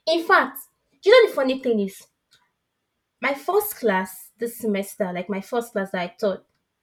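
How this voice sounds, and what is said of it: Nigerian West African English accent. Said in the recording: “he could tell I'm from West Africa based on my accent ... I cannot even stop being Nigerian ... sometimes my accent just gives me away”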